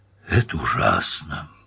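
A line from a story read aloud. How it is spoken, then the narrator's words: Quiet mournful speech. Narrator (Russian): Тышецкий с приличествующей скорбью негромко произнес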